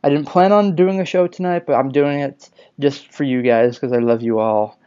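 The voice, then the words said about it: Sick-sounding voice. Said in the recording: “I'm a little sick. You can kind of hear it in my voice that I've been sick.”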